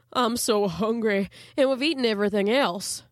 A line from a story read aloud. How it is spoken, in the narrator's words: he replied mournfully